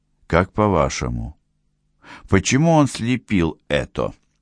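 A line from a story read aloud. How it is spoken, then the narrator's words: Plain. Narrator (Russian): спросил Карим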